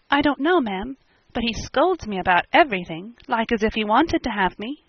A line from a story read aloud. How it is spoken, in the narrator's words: the poor child murmured